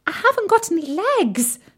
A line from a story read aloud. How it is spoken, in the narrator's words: squeaked Tim